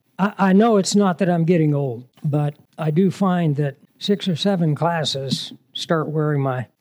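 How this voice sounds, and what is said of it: Scratchy, worn-out voice. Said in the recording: “my voice is getting scratchy”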